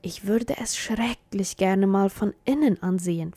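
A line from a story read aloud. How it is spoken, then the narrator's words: Whisper. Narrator (German): flüsterte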